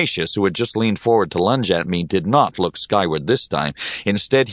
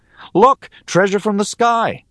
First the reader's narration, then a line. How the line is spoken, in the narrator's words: I cried out